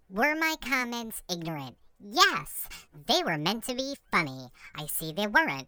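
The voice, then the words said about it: Imitates another person's voice. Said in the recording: “my best Colton impression”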